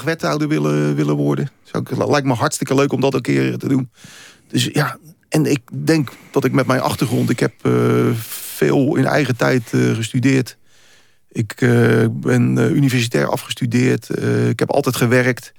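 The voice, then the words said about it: Rotterdam accent, broad and working-class. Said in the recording (Dutch): “Komt dat door je accent ... Een Rotterdams accent maakt dat mensen denken van... ja, komt wat plat, goedkoop. Het komt wat goedkoop over, wat volks over”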